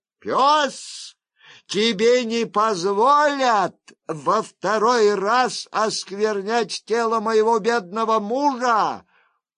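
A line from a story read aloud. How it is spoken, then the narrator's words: Shout, widow. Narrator (Russian): вдова прокричала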